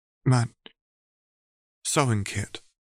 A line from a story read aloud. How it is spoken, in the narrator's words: she asked hesitantly